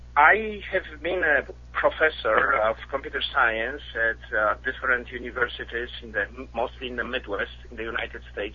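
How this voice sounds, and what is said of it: Polish-accented English. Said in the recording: “I'm originally from Poland, as you can probably tell with my accent.”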